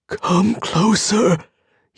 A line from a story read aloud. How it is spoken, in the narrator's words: he whispered